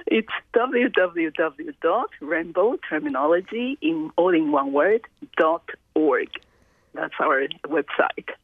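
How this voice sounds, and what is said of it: Put-on radio announcer voice. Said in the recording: “I would give you my best radio voice.”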